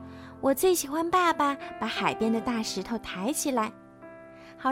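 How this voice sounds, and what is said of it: Usual voice. Nothing is said of it.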